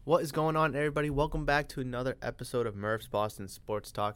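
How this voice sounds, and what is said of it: Raspy, congested sick-sounding voice. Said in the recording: “you could probably tell from my voice, it doesn't sound the greatest right now... a little bit of raspiness or like a little, some sniffles, or you know, some coughs”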